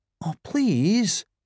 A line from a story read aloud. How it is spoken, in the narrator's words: he pleaded